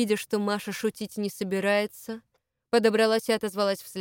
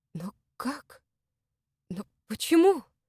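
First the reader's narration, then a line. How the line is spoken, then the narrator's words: Frightened. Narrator (Russian): Испуганно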